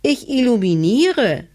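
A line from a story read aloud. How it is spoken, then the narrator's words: Small cat calling down. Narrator (German): rief die kleine Katze herunter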